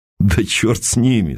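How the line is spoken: Laughing. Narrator (Russian): засмеялся Константин

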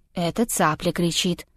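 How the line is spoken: Calm objection. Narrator (Russian): спокойно возразил Павел

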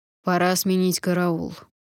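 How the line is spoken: Commanding interruption. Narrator (Russian): властным тоном прервал разговор главный

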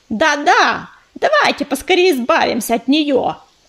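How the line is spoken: Shout from crowd. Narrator (Russian): крикнул кто-то из задних рядов толпы

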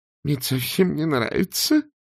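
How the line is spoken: Moaning. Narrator (Russian): простонал Артур

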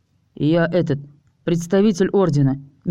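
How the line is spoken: Hesitant reply. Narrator (Russian): неуверенно ответил вампир

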